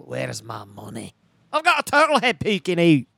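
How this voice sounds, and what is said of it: Scottish accent character voice. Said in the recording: “That was pretty good Scottish accent.”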